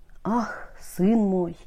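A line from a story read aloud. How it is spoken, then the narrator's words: Quiet sigh. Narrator (Russian): тихо вздохнула королева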